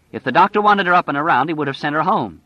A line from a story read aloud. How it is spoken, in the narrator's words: Stu said angrily